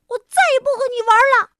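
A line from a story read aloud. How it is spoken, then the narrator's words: Angry shout. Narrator (Chinese): 我气得大叫起来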